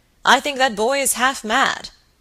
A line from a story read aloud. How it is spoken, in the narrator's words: exclaimed the baronet